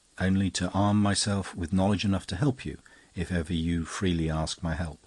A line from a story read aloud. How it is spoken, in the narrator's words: he replied very gently